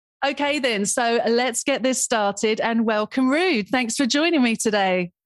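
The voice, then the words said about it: Polished radio presenter voice. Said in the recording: “Got my radio voice on there.”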